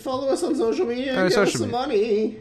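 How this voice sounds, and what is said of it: Squeaky cartoon teen voice. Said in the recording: “That was a squeaky voice teen from The Simpsons.”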